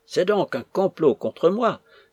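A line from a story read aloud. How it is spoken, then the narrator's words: Bitter exclamation. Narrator (French): s'écria-t-elle d'un ton d'aigreur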